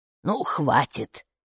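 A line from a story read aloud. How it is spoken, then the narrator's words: Angry, gatekeeper woman. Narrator (Russian): сердито сказала привратница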